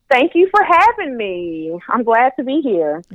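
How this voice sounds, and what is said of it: Slight Southern US twang. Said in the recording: “I hear a little accent, a little twang ... I am from the South ... I guess I do sound Southern”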